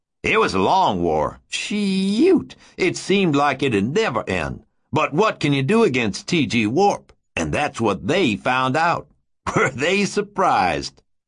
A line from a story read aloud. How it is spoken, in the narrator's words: He giggled